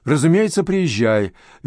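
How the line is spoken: Cheerful detective. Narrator (Russian): весело ответил детектив

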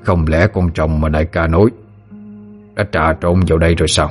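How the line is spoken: Muttering. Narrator (Vietnamese): tên kia vừa lẩm bẩm

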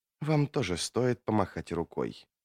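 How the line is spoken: Quiet, song-like female voice. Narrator (Russian): проговорила она негромко, и ее голос прозвучал, как песня

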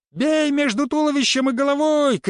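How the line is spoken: Shouted. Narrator (Russian): крикнул он

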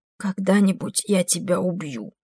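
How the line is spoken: Hoarse promise. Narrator (Russian): хрипло пообещала она ему

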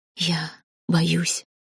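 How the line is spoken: Whispered confession. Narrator (Russian): шепотом призналась я

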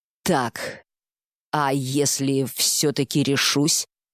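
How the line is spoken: Slow, deliberating she-bear. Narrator (Russian): проговорила медведица медленно, словно прикидывая варианты

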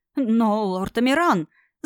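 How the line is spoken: Stammering bleat of high priest. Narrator (Russian): заикаясь, проблеял первосвященник

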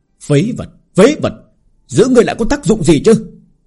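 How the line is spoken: Angry shouting. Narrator (Vietnamese): Lão nhân giận dữ hét lên

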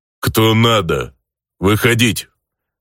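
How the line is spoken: Grumbling in broken Elvish. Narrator (Russian): На жутко корявом низшем эльфийском проворчал встречающий нас представитель голландцев

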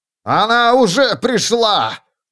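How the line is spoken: Orator shouting. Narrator (Russian): выкрикнул оратор

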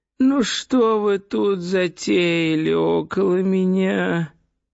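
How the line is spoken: Whining voice. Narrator (Russian): ноющим голосом произнес он

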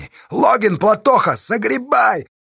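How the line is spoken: Shouting. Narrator (Russian): закричала Сташа под плакун горой

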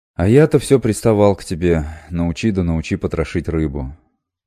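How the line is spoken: Sorrowful sigh. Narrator (Russian): сокрушенно вздохнул Сибил

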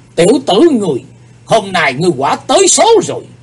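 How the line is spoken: Angry. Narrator (Vietnamese): Âm ma giáo chủ giận dữ nói

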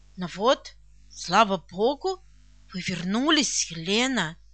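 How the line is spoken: Smiling, excited. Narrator (Russian): Бавария, мягко улыбаясь, произнесла взволнованно

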